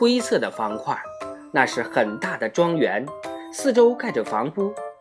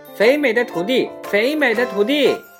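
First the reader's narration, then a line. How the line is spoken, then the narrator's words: Reproachful geese calling. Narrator (Chinese): 大雁们……不无责备地叫喊道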